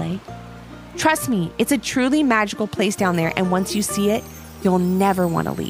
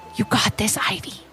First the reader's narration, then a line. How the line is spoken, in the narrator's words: whispered Levi